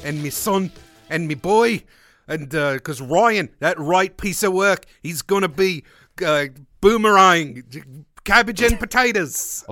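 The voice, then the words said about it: Put-on accent, poorly held. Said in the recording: “I can't hold an accent”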